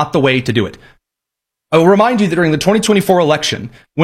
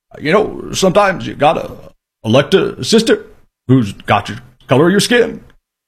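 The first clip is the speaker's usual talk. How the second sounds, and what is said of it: Poor imitation of another person's voice. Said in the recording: “terrible Obama impression.”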